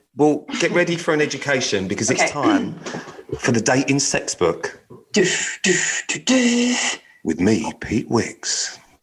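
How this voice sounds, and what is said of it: Strong announcer-style radio voice. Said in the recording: “that was my radio voice ... Strong”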